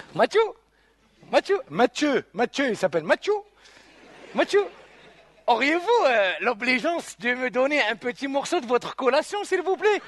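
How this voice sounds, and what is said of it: Formal French with Arabic accent. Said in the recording (French): “un français soutenu et un accent d'arabe”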